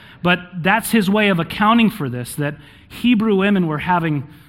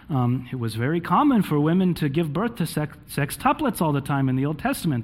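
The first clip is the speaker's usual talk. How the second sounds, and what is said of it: Put-on Hebrew-Jewish rabbi accent. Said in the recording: “That's my Hebrew-Jewish rabbi accent.”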